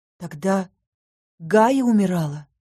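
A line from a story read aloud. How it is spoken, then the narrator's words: Forced out, embarrassed. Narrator (Russian): выдавила я, смутившись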